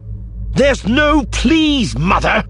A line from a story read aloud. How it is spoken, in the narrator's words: Arinda snarled at her